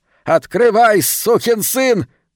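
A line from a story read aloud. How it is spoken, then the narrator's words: Yelling. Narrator (Russian): вопил Калеб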